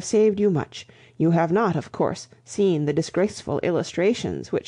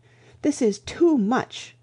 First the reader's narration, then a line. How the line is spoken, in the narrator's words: cried the chaplain, striking petulantly